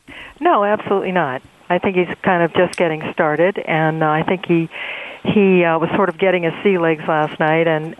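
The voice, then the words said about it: Smooth, rich radio voice. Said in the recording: “You have a great radio voice.”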